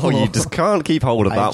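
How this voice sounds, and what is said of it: Put-on unidentified accent. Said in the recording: “I don't know what that accent is.”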